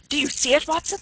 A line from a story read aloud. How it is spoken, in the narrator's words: yelled